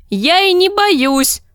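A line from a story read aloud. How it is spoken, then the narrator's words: Shouted reply. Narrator (Russian): прокричала она в ответ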